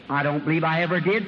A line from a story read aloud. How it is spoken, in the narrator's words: said Bartimaeus